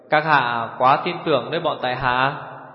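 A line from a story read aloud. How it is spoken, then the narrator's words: Smiling. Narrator (Vietnamese): Hổ Thiết Hoa mỉm cười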